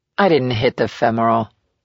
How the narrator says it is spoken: Wyatt said calmly

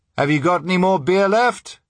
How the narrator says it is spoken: I shouted across

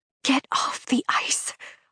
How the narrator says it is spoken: I whisper

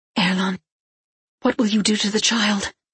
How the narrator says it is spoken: She gasped

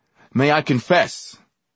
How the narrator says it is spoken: I shouted

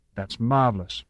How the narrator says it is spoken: Walden said

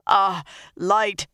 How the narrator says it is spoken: he panted

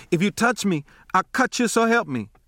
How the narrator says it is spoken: I said in gasps

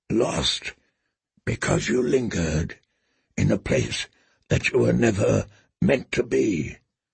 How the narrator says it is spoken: murmured Ser Jorah, as softly as a wind

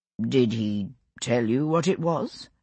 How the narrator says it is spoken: John asked after a moment, his voice elaborately casual

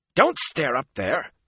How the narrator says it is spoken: Matt snapped

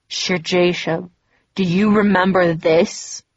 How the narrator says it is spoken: He asked with a sickening laugh, his voice low and guttural

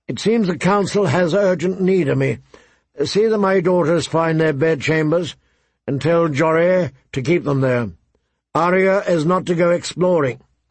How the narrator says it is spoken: Ned saw Vaughan Poole, his own steward, and called out

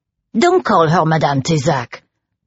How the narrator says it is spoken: barked Bertrand's grandmother

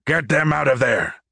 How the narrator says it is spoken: Cacrondo roared

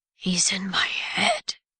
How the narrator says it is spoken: he said, his voice a rumbling growl

